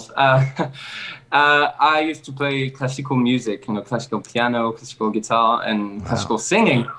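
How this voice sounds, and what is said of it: Foreign-accented English. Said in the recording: “love your accent”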